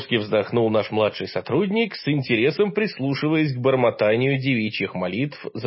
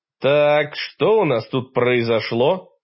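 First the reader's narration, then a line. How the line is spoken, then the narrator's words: Stern question. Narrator (Russian): строго спросил я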